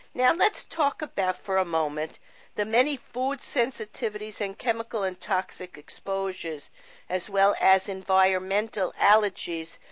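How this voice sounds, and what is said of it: Slightly raspy voice. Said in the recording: “my voice at the beginning of the show was a little raspy. I am having a little bit of an allergy attack.”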